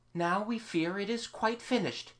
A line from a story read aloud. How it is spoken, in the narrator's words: they sighed